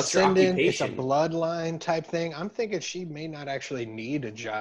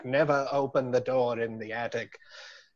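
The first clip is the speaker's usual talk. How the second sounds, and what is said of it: Put-on British accent. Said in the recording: “my best British or French accent ... That was British for sure. ... It was definitely British.”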